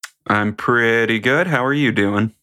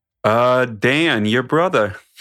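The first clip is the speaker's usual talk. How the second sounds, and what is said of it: Vague mixed put-on accent. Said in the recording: “Not quite sure what accent you were trying to do there ... A mix of indistinguishable accents”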